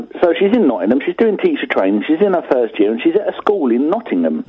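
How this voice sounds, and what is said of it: Slight London accent. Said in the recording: “I've a slight London twang”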